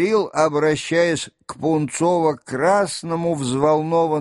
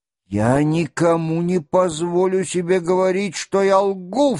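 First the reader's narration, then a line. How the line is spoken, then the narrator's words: Sharp outcry. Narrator (Russian): вскрикнул Ростов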